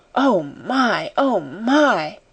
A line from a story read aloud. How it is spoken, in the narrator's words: Sara heard her say hoarsely, in wild delight